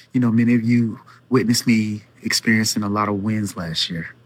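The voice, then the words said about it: Speaking quietly, low voice. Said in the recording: “I'm talking really low”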